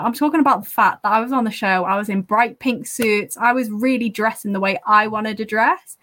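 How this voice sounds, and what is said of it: Northern English accent. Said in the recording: “having a northern accent”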